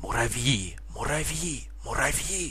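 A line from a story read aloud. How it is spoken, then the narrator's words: Furious group whisper. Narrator (Russian): Яростно шептали музыканты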